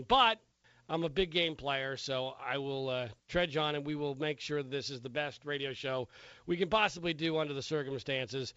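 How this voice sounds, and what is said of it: Sick-sounding voice. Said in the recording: “as you can already tell from my voice, I am sick again”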